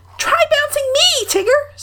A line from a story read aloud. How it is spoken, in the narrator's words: said Roo eagerly